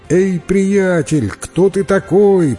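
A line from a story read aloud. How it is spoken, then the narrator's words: Shouted. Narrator (Russian): прокричал ему Джек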